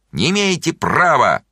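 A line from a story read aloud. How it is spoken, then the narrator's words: Distant shouting. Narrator (Russian): Миша Горбунов кричал из переулка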